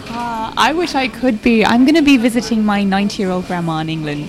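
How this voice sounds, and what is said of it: English accent. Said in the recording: “the accents, are you both from England? ... We are.”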